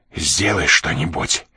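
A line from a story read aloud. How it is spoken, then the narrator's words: Desperate whisper in ear. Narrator (Russian): отчаянно прошептал он на ухо Жанне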